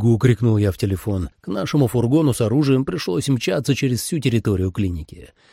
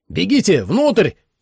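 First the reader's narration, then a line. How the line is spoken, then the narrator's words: Shout drowned by siren. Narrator (Russian): крикнул я, но мой крик перекрыла сирена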